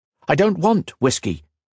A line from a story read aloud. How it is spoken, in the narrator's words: responded sharply